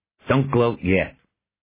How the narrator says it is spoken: Macklin snapped

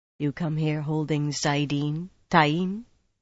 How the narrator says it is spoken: Rand said, much too softly

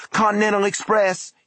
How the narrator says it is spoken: he cried, now separated from his own voice by what felt like miles

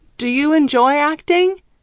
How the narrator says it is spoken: I shout to Lair over the music

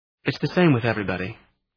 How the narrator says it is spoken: he said

